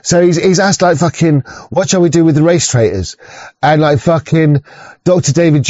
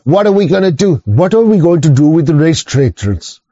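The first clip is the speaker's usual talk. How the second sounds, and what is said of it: Put-on Estonian accent. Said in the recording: “That's my best Estonian accent, yeah? If you can do a better one, you do it”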